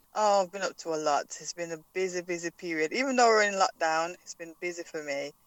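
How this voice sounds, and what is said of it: Slight Jamaican accent. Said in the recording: “a little bit of an accent”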